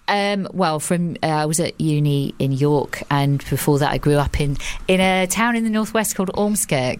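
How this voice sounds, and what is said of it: Semi-posh hybrid English accent. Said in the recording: “where's the accent gone? ... I kind of put on a bit of a posh voice ... this weird hybrid where there is, you know, it's kind of this semi-posh,”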